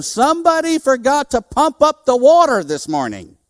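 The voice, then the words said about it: Yelling, raised voice. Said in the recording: “I'm yelling out the window”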